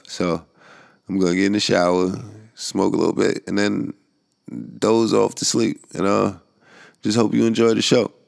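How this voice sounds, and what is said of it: Tired-sounding voice. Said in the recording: “I'm tired ... I know you can hear the tiredness in my voice at this point”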